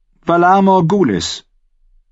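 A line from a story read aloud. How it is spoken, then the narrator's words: Loud. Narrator (German): sagte sie so laut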